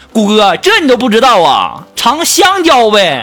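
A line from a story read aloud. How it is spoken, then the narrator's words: Shouting. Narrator (Chinese): 我们的锦房在那喊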